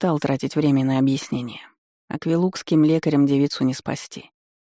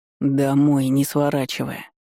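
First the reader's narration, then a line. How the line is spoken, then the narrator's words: Hoarse, voice not yet steady. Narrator (Russian): хрипло бросил Дан, разыскивая в горле свой обычный голос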